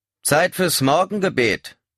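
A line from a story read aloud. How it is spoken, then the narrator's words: Loud. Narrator (German): sagte mit lauter Stimme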